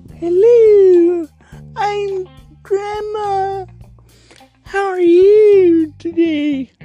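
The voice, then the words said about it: Grandma character voice. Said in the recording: “scary voices ... That's my grandma voice.”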